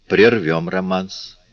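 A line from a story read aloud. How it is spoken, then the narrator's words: Plain. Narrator (Russian): сказал он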